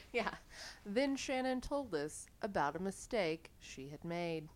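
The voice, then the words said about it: Calm public-radio host voice. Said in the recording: “That's my NPR voice. ... It's good.”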